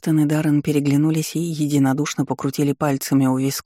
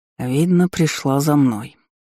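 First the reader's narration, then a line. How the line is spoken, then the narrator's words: Heavy sigh. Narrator (Russian): вздохнул тяжело Рев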